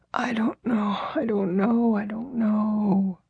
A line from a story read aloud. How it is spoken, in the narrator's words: The messenger replied in his broken whisper